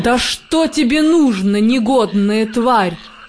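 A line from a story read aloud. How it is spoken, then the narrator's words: Growl. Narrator (Russian): зарычал он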